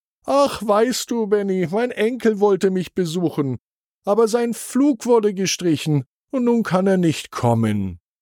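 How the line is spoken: Sighing explanation. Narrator (German): Frau Müller seufzte und erklärte

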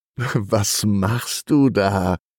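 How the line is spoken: Laughing question. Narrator (German): fragt sie und lacht

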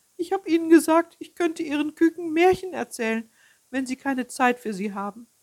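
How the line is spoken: Old hen sobbing. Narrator (German): schluchzte das alte Huhn

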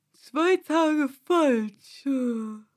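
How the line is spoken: Sighing. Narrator (German): seufzte der Hutmacher

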